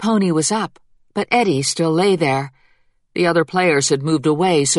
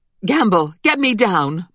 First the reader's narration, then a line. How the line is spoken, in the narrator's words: Mama cried to their coachman